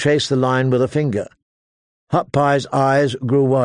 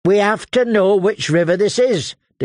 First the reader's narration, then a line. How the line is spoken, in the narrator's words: declared Gendry, in his stubbornest voice